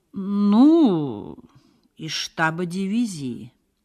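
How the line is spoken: Drawled cautiously by a major. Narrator (Russian): протянул осторожно майор

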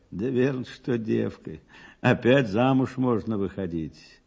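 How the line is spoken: Joyless laugh. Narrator (Russian): И рассмеялась невесело

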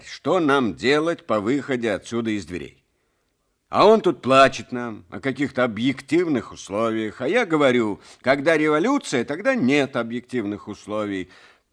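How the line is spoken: Angry clipped words. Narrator (Russian): уже сердито отчеканивал секретарь

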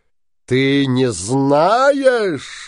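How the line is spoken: Shouted. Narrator (Russian): закричал синяя борода

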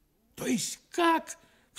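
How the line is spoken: Sudden cry. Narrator (Russian): вскрикнул

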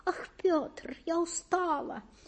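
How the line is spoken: Thin high moan. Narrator (Russian): еще тоньше простонала она

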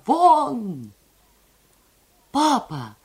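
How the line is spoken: Sharp cry. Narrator (Russian): вскрикнула Лиза

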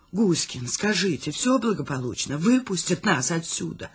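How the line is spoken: Whispered question. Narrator (Russian): Шепотом спрашиваю я

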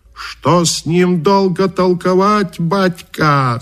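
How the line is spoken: Shouting. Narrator (Russian): закричал Каракача

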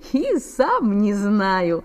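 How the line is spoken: Laughing. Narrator (Russian): засмеялся Саша

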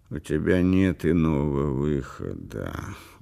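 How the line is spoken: Weary. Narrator (Russian): устало сказал Брандт

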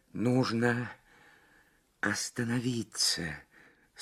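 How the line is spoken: Strained whisper. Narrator (Russian): с трудом прошептала Лабискви

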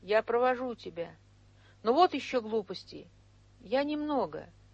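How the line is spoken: Very timid. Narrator (Russian): очень робко сказал

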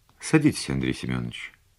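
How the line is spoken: Calm statement. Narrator (Russian): спокойно сказала подполковник

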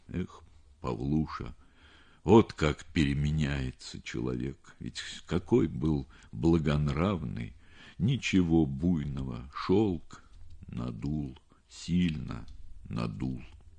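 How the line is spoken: Weak voice, heavy sigh. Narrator (Russian): произнес он слабым голосом, тяжело вздохнул

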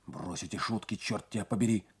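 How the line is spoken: Whispered. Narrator (Russian): зашептал он

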